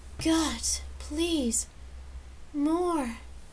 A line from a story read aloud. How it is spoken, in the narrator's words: she gasped out